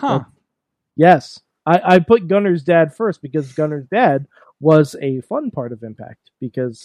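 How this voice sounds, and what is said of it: Usual voice. Nothing is said of it.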